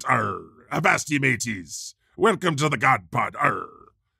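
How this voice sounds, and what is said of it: Weak put-on pirate accent. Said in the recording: “I'm gonna talk like a pirate ... I really have to work on that accent, to be honest ... Really, really have to work on that pirate accent.”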